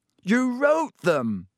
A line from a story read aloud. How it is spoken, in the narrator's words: Harry shouted